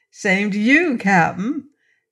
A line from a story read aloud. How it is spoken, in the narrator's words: she said with a laugh